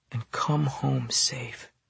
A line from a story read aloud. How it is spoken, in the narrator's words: she whispered